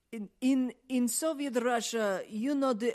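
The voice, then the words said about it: Mock Russian accent. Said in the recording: “the Russian accents were absolute shit ... you do Russian accent”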